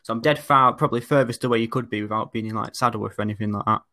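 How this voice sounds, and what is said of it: Oldham accent, less traditional. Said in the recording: “I'm from Oldham. Uh, but as you can maybe sort of tell from my accent, it's a bit sort of different from sort of the more traditional older ones”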